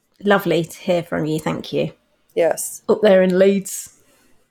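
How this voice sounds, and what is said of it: Attempted Leeds accent, northern English mix. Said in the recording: “that was my attempt at a Leeds accent ... my general sort of Mancunian, Lancashire, Yorkshire accent is just exactly the same. It's just an amalgamation of all of them”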